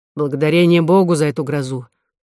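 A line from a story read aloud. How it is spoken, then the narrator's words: Grumbling. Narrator (Russian): проворчал Дюлют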